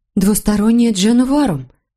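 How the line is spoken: Excited. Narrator (Russian): взволнованно произнесла она

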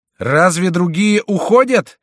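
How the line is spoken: Thunderous shout. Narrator (Russian): закричал Шико громовым голосом

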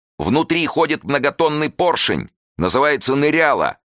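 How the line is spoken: Shout. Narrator (Russian): крикнул Васильев

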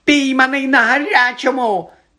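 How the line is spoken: Shrill, pale-faced squeal. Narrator (Ukrainian): заверещав поблідлий Ерні

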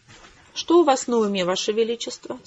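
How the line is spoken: Calm question. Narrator (Russian): спокойно спросила Хэвишем

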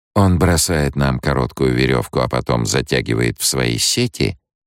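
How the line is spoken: Deceptively impassive question. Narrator (Russian): спросила Сиона обманчиво бесстрастным тоном

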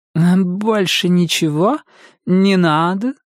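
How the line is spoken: Flirtatious cooing. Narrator (Russian): Поцелуйно вытянув губы, проворковала официантка Аня

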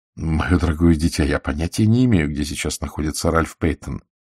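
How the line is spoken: Plain. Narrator (Russian): сказал я

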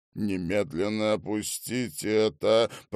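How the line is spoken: Growl. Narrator (Russian): прорычал Ментон

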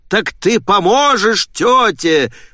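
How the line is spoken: Shouting. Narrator (Russian): прокричал отец

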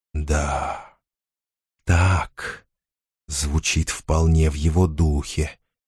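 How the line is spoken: Whisper. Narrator (Russian): шептал Орфей

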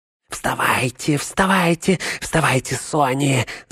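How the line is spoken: Whisper. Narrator (Russian): зашептал он

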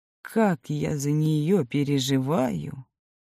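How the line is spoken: Worried whisper. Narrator (Russian): прошептал Георгий Георгиевич

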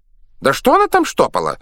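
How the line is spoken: Indignant exclamation. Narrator (Russian): возмущенно воскликнул лоцман

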